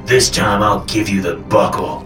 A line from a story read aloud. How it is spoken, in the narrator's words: Papa growled